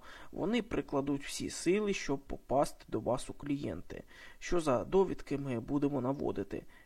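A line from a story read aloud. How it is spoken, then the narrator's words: Sighing. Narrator (Ukrainian): Він зітхнув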